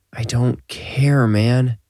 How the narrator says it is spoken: Rip groaned

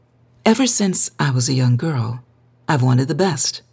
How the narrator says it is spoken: Odessa said earnestly

